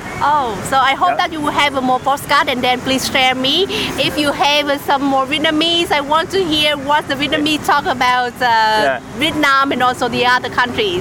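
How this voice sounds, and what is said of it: Slight Vietnamese accent in English. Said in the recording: “You have a little bit of a Vietnamese accent, but your English is brilliant.”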